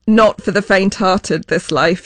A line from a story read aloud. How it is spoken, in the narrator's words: she says